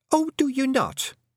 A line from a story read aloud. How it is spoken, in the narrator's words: said Fionn sharply